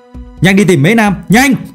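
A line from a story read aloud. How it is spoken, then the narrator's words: Loud shout. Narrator (Vietnamese): Phương Mộc liền hét lớn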